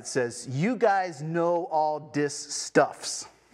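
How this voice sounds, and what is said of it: Reading in Pidgin English accent. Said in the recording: “bear with me in my accent ... the Pidgin Bible”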